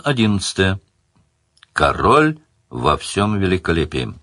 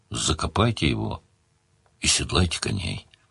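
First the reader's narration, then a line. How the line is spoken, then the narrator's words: Grumble with pity and disgust. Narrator (Russian): Ощутив смешанную с отвращением жалость, Сварог буркнул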